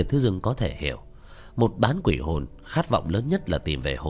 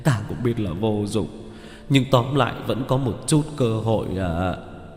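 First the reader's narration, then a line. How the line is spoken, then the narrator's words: Gloomy sigh. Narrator (Vietnamese): Vẻ mặt của Phương Nhạc nhạc ảm đạm, thở dài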